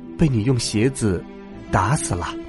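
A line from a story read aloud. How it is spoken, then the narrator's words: Soft. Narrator (Chinese): 小人轻声说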